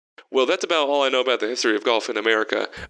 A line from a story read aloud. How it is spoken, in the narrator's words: Vern said quickly